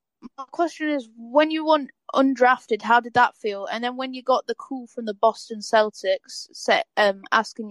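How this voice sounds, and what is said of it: British accent. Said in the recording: “your accent is cool. Like, I love that British accent.”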